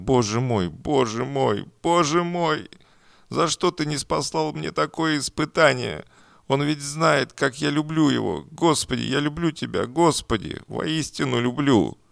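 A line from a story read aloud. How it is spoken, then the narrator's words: Sobbing. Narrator (Russian): Всхлипывая, она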